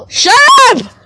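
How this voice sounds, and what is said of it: Shout with voice cracking. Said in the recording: “my voice cracked.”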